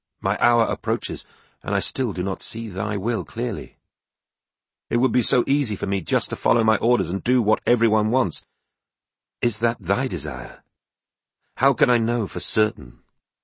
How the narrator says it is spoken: he said, clasping his hands earnestly

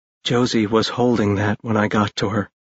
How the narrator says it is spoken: Ash said quietly

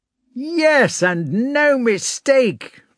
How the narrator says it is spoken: cried Denisov

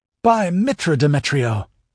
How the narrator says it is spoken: exclaimed Aeris thankfully

